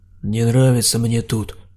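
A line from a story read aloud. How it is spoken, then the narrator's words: Grumbling mutter. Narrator (Russian): пробурчал Саня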